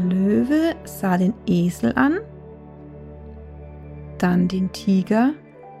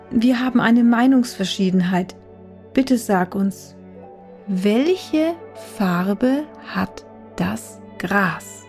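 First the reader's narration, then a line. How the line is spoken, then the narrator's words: Forced calm. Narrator (German): begann der Tiger bemüht, ruhig zu klingen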